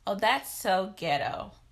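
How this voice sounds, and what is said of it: Very fake put-on voice. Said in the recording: “Wow, I just put on a very fake voice.”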